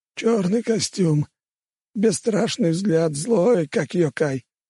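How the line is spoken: Wounded hoarse wheeze. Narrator (Russian): Раненый прохрипел

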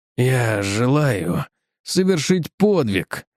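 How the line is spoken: Mumbled. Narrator (Russian): промямлил Пирсон

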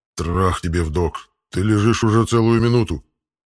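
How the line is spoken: Indignant growl. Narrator (Russian): Возмущенно прорычал питомец

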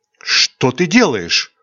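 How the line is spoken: Frightened girl's whisper. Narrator (Russian): Испуганно прошептала девушка

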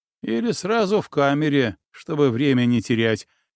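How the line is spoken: Short chuckle. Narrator (Russian): хохотнул Лёшка

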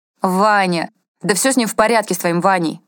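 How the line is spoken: Irritated reply. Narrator (Russian): раздраженно отозвался Петров

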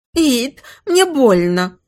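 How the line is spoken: Woman whimpering. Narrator (Russian): захныкала любовница

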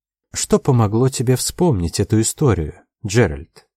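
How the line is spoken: Gentle encouraging question. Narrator (Russian): мягко спросила она, приободряющим тоном

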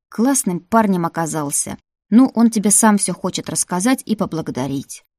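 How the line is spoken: Plain. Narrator (Russian): сказал дух

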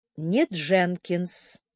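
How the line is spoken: Calm objection. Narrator (Russian): спокойно возразила девушка

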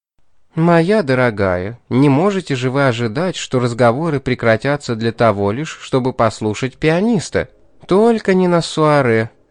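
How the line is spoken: Gentle reproach. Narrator (Russian): мягко укорила ее Амарилис

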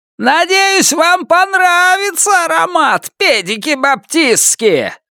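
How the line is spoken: Yelling from behind door. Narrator (Russian): заорал кто-то с той стороны двери

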